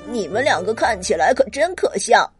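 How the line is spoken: Mocking laughter. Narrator (Chinese): 内特指着他们大笑起来

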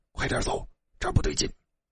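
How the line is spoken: Whisper. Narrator (Chinese): 小声的说

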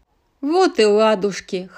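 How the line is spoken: Chuckling. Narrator (Russian): хохотнул тягач

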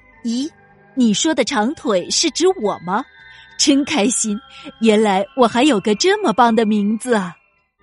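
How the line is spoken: Smiling. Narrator (Chinese): 长腿微笑着说

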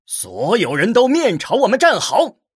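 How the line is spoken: Loud warrior. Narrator (Chinese): 莫名边上的一名武人大声说道

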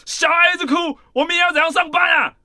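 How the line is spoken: Angry loud scolding. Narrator (Chinese): 我前夫生气的大声的斥责我说

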